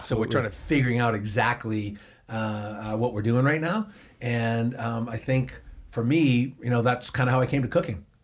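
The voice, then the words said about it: Boston accent. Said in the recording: “I'm from Boston, as you can tell from my accent.”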